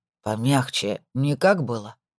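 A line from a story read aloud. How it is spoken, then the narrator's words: Sleepy question. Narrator (Russian): сонно спросил он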